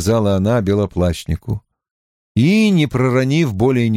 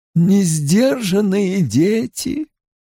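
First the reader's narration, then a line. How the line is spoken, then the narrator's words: Sighing. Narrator (Russian): вздохнула Вэрин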